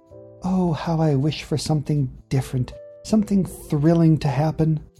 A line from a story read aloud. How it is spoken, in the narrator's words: she sighed and whispered to the wind